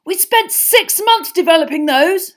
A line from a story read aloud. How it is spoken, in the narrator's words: Fred shouted at his mother